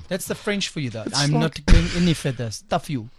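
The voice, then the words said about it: Mock French accent. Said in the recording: “You do that accent well”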